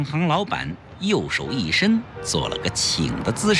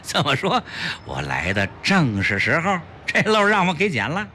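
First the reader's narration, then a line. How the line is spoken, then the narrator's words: Happy laughing. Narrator (Chinese): 齐长鹏高兴地笑道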